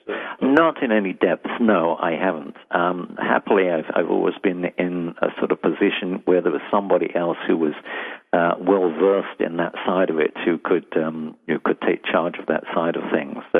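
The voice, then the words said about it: Slight London English accent. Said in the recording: “I detect a slight accent. ... From London.”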